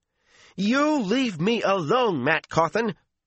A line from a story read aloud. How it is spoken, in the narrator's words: she all but shouted